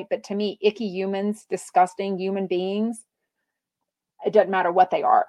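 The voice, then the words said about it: Very thick accent. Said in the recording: “your accent is very thick”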